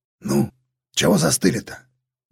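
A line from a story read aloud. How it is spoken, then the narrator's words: Displeased grumble. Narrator (Russian): недовольно буркнул старшина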